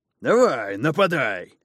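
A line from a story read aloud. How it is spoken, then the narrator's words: Excited shout. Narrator (Russian): азартно крикнул Остал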